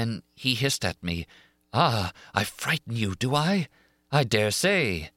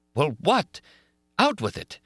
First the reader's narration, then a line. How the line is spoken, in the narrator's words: exclaimed Raoul fiercely